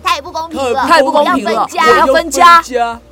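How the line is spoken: Shouting in unison. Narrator (Chinese): 大家同时大喊

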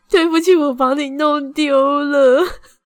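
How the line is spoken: Crying. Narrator (Chinese): 我就哭着跟他说

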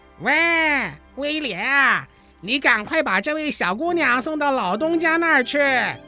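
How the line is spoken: Loud call across yard. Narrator (Chinese): 泰威尔向院子那边大声叫着

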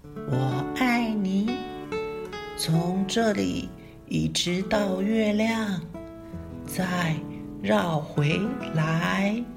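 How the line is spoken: Soft smiling whisper. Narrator (Chinese): 大兔子……小声的微笑着说

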